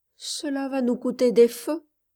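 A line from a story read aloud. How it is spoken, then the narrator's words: Timid speech in unison. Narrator (French): dirent timidement les deux Jeffs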